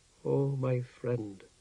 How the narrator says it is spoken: she murmured

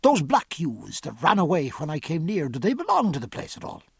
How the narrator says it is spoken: said sternly

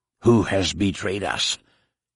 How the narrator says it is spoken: hissed a voice in his ear

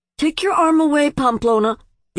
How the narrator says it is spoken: the other man said anxiously

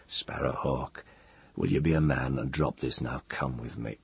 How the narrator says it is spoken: said very softly to Ged

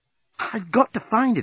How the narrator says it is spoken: exclaimed Nettie

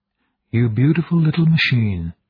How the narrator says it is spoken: he breathed

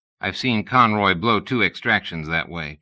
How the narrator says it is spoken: Turner said

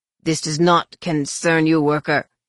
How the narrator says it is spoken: snarled the second guard

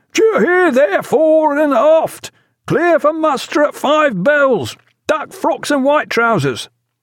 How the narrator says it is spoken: the boatswain was bawling down the hatchways

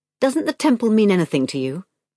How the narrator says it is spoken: asked, rather harshly

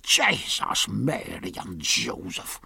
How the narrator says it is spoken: in his usual harsh, grating voice, though very low

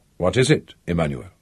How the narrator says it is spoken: It was the wife who said quietly

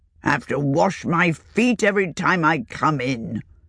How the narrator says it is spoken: grumbled

